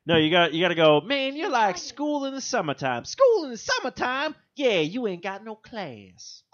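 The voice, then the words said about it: Imitates a cartoon character's voice. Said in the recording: “It's like mimicking voices. ... Do a Fat Albert?”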